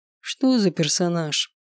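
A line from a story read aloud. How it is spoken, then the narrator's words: Father's lazy question. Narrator (Russian): Лениво поинтересовался отец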